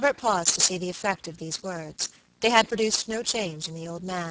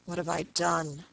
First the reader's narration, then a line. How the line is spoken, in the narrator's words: murmured hopelessly